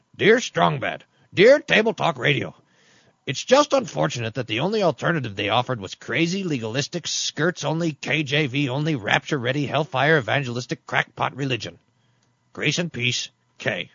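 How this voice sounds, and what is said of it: Cartoon wrestler character voice. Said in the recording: “in the voice of Strong Bad, the wrestler from the cartoon ... a Strong Bad accent? ... That's not bad.”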